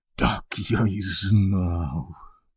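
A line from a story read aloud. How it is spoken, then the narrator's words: Groaning. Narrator (Ukrainian): простогнав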